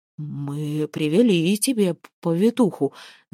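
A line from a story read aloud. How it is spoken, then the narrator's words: Stuttering mumble. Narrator (Russian): заикаясь, пробормотал Асфорд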